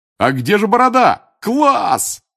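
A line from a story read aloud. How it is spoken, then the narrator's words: Roaring. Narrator (Russian): взревел Джордж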